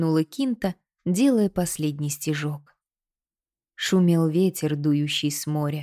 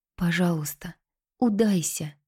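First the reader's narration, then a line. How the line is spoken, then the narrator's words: Whisper again. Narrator (Russian): снова шепнула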